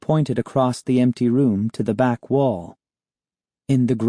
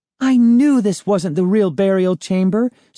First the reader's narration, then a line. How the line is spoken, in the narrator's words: Sari cried, grinning at me